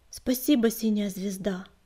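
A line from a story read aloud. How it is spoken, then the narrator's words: Muttering. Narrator (Russian): пробормотал он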